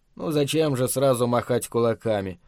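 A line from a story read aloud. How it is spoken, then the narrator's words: Cold. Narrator (Russian): холодно проговорил он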